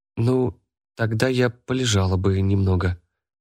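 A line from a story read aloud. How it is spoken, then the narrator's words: Timid reply. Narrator (Russian): робко отвечает Талли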